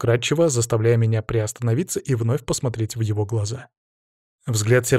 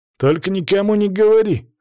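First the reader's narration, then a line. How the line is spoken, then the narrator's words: Snorting. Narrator (Russian): фыркнул он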